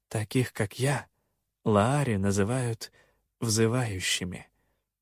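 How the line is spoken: Quiet. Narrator (Russian): тихо проговорила она

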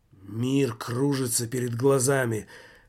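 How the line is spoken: Increasingly loud wheezing. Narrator (Russian): хрипел Жак все громче

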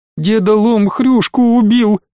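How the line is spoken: Sobbing. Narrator (Russian): всхлипывая, ответила Златка

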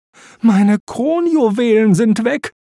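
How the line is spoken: Wailing queen. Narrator (German): jammerte die Queen

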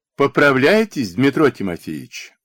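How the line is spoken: Joyful greeting. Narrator (Russian): Радостно встретила его сестра-хозяйка

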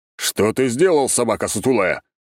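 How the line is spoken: Angry growl. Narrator (Russian): рыкнул Август Никифорович

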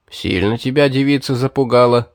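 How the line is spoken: Amused snort. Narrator (Russian): хмыкнул Гелим

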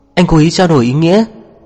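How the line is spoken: Annoyed. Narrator (Vietnamese): Cố Sơ buồn miệng, bên bực bội nói

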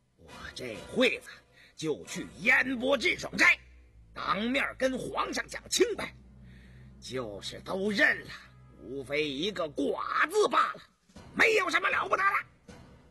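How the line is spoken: Suddenly furious. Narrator (Chinese): 燕仍突然暴怒地说

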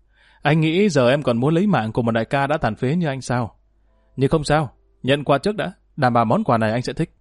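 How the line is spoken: Bursting into laughter. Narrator (Vietnamese): Ngoạn cười phá lên

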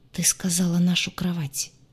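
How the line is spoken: Almost soundless breath. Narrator (Russian): Почти беззвучно выдохнул мужчина

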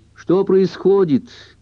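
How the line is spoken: Shouting from bathroom. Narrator (Russian): крикнула Кэрол из ванной

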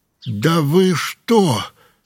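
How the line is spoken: Forced out. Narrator (Russian): выдавил он

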